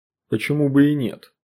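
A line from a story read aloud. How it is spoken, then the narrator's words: Gloomy. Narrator (Russian): мрачно сказал Нимма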